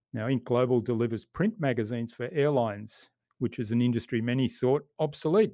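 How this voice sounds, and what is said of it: Australian accent. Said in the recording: “a friendly Australian accent”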